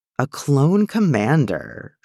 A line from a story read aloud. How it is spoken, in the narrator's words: purrs